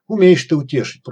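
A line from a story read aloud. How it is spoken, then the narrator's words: Grumbling. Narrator (Russian): пробурчал храп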